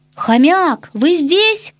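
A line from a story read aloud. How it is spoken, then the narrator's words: Shouted. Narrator (Russian): крикнул уголек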